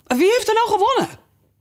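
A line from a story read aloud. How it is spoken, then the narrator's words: Breathless asking. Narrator (Dutch): allemaal hijgend vroegen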